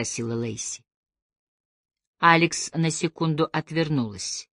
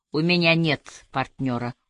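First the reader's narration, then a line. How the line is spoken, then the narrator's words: Cold. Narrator (Russian): холодно произнесла она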